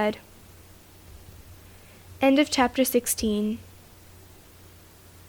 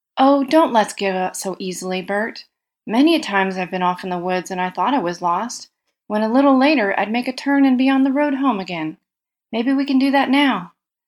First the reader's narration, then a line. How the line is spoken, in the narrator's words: Harry, sturdy country boy that he was, exclaimed